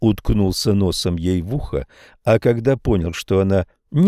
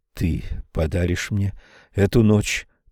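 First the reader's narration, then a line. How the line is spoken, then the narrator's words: Intimate close whisper. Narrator (Russian): прошептал прямо в эти полусомкнутые губы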